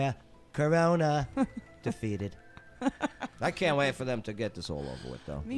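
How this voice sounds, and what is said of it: Usual voice. Nothing is said of it.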